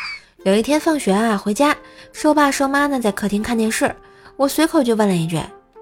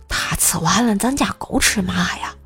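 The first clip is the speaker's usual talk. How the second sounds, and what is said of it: Whispered quiet line. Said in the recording (Chinese): “在瘦妈耳边小声说了一句”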